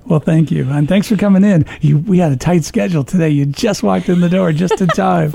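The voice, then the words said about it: Smooth radio-announcer voice. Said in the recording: “you have such a great radio voice.”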